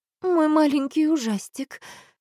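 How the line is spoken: Sighing. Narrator (Russian): вздохнула мама

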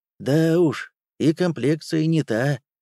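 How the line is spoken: Sad sigh. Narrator (Russian): грустно вздохнул Серега

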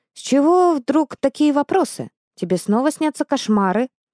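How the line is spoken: Sighing. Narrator (Russian): он вздохнул

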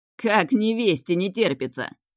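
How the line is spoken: Snide interjection. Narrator (Russian): Ехидно вставил Гайн

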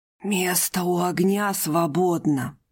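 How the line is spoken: Hoarse. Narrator (Russian): прозвучал хриплый голос

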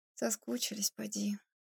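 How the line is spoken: Sigh. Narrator (Russian): вздохнула Ирина

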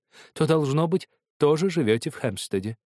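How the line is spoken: Kind, sympathetic voice. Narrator (Russian): проговорила она добрым, участливым голосом

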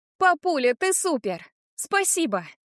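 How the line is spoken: Hurried parting shout. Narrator (Russian): Успеваю крикнуть напоследок

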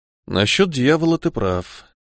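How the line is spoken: Young man, quiet. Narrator (Russian): тихо сказал парень

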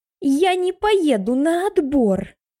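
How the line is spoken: Shrill ear-splitting squeak. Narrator (Russian): визгливый писк в который раз заложил нам уши

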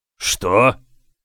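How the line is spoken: Barking. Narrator (Russian): рявкнул генерал-адмирал

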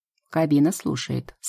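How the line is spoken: Plain. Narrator (Russian): сказал капитан

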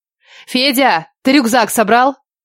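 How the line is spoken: Shouted. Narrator (Russian): Крикнула

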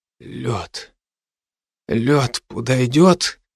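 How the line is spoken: Dry-lipped whisper. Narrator (Russian): прошептал я пересохшими губами

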